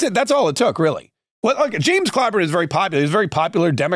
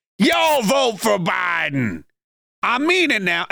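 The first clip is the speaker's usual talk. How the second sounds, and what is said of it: James Clyburn impression. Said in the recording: “my James Clyburn impression.”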